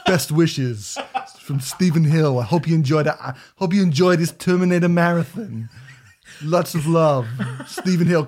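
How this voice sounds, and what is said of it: Arnold Schwarzenegger impression. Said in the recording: “in an Arnold Schwarzenegger voice”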